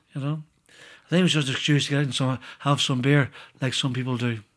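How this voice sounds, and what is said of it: Irish accent. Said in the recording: “is from Ireland ... is that the accent?”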